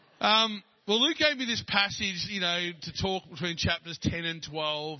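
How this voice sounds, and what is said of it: Australian accent. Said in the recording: “I had an Australian accent.”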